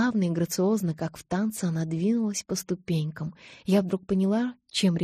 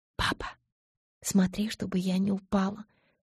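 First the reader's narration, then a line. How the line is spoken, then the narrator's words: Whispered. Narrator (Russian): шепнула я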